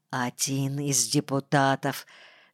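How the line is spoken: Whispered. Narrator (Russian): шепнул мне Страдецкий

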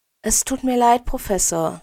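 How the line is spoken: Gentle. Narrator (German): sagt sie sanft

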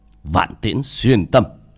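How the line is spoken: Shouted. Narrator (Vietnamese): miệng quát

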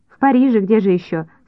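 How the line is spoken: Laughing answer. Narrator (Russian): смеясь, ответил Вадик

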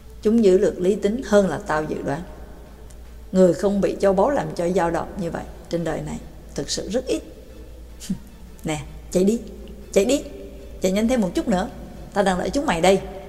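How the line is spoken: Young man speaking softly. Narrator (Vietnamese): Người trẻ tuổi khẽ nói

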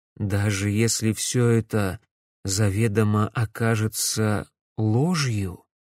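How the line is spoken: Quiet question. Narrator (Russian): тихо спросил Дмитрий

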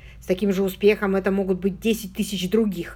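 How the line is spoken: Irritated remark. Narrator (Russian): раздраженно заметил Чарльз

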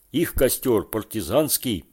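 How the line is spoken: Shouted. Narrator (Russian): закричал Паша

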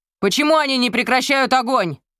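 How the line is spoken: Shouting. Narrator (Russian): крикнул он Гермину

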